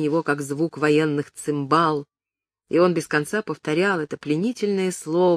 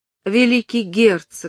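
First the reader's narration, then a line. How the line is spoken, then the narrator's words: Whimpering woman. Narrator (Russian): захныкала она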